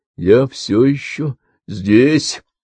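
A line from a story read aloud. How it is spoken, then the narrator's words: Interjecting. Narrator (Russian): вмешался Чарли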